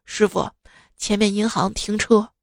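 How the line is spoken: Low, lowered voice. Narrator (Chinese): 压低声音说

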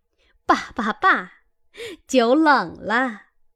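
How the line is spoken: Laughing. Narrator (Chinese): 凤姐儿 笑道

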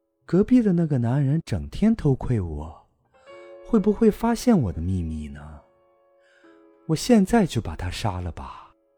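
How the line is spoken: Murmuring to herself. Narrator (Chinese): 母亲喃喃自语道

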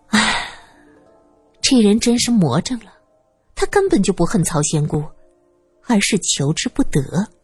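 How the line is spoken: Sighing. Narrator (Chinese): 苏三叹了口气

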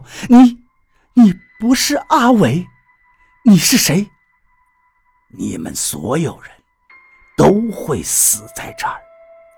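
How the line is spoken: Terrified trembling voice. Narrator (Chinese): 田志勇恐惧地……颤声道

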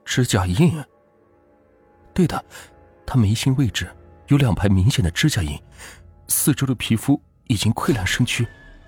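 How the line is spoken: Soft reply. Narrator (Chinese): 刘浩轻声回道

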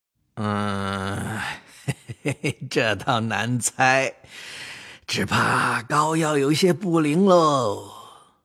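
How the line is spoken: Laughing after thought. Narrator (Chinese): 王一贴……寻思一会儿，笑道

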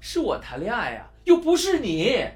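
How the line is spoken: Loud, annoyed. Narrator (Chinese): 波利似乎对阿汉多管闲的事感到厌烦，大声的说道

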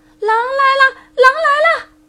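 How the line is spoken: Very loud shout. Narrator (Chinese): 他叫的比上次更大声

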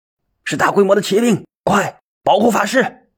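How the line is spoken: Hoarse loud shout. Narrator (Chinese): 机警的赵少英嘶哑着声音高喊道

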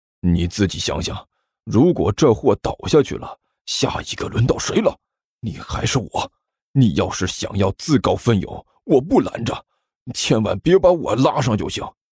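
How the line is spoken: Hushed. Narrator (Chinese): 尼才压低声音说道

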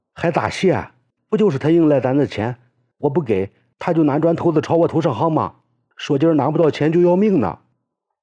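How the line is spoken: Shouting. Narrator (Chinese): 冬至喊道

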